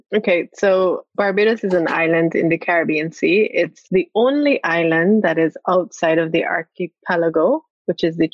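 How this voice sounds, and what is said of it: Slight Barbadian accent. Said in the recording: “people can hear you have a bit of an accent. So you were born in St. James Parish of Barbados.”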